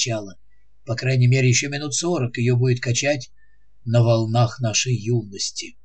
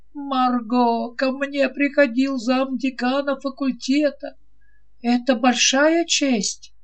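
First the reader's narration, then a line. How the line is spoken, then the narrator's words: Moan. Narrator (Russian): Он простонал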